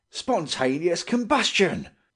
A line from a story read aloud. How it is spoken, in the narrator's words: he exclaimed